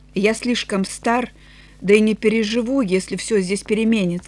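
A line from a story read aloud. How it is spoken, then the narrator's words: Plain. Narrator (Russian): сказал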